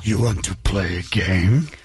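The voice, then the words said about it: Jigsaw horror villain voice. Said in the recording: “impersonation ... Do a little jigsaw for the people.”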